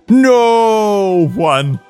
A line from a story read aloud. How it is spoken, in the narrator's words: Lupin shouted